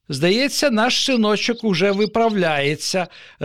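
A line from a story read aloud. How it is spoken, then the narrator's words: Joyful father. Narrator (Ukrainian): радісно повідомив татусь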